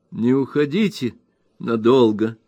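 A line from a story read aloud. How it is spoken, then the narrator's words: Tender, old woman. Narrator (Russian): нежно сказала старая дева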